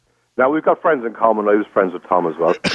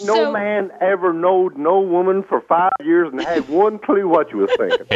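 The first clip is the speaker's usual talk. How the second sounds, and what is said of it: Bad put-on Carolina accent. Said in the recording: “he's trying to put on a bad accent ... I was trying to do a Carolina accent”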